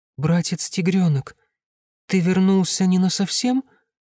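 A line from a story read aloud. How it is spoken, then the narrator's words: Timid asking. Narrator (Russian): робко спросила она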